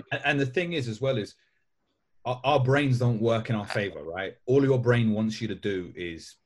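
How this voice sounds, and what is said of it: East London accent. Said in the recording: “it doesn't really seem from my accent because I grew up in East London”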